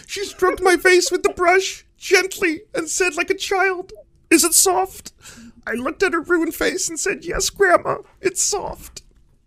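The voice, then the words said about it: Kermit-like nasal character voice. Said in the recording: “do that Kermit voice that well”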